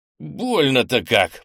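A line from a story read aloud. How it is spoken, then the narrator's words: Groaning. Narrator (Russian): простонал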